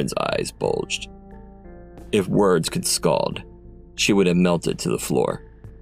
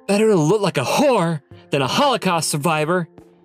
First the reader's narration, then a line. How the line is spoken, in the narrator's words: snapped back acidly